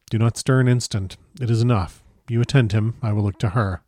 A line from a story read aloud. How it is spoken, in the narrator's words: he said in a soft voice